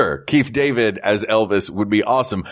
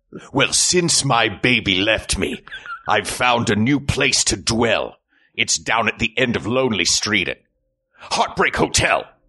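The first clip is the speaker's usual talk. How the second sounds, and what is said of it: Very intense voice impression. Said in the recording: “because of that very intense voice he has ... That's my Keith David impression.”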